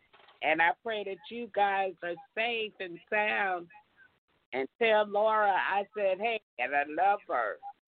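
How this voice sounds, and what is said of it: Hoarse, fading voice. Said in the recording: “Just losing my voice from the pollen”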